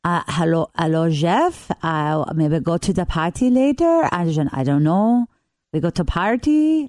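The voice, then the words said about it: Put-on French accent. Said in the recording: “Can you speak English with a convincing French accent?”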